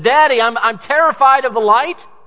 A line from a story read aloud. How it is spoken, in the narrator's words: a child that's come running screaming in fear to you and said